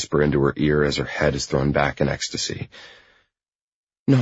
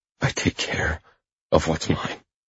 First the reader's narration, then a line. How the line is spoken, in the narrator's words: I whisper